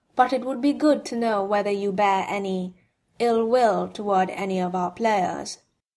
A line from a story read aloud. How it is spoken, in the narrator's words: Monsieur Beliveau said calmly